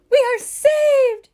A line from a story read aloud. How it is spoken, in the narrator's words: cried Mrs